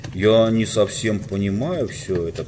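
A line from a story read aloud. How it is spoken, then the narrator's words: Grumble. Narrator (Russian): проворчал он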